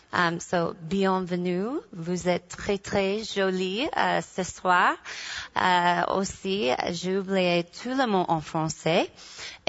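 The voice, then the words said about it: Heavily accented, poor French pronunciation. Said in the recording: “Et mon accent, ça c'est très, très horrible. ... I have a terrible accent”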